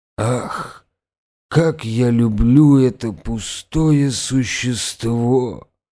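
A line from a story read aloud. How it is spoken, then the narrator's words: Groaned. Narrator (Russian): простонал Павел Петрович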